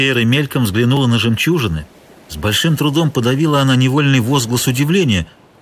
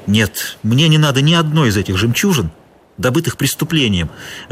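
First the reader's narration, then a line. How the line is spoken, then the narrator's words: Sharp reply. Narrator (Russian): резко ответила Гутьера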